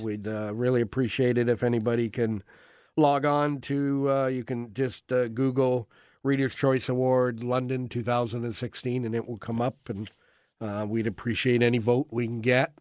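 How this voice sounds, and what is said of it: Sick-sounding, weakened voice. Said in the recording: “your radio voice is not what it usually is. You sound like you're just not quite 100%. ... I got the flu.”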